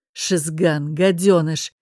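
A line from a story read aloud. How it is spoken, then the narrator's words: Lord speaking without anger. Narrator (Russian): не зло произнес лорд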